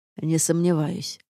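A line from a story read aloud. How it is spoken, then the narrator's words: Wry snort. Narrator (Russian): хмыкнул Рейнард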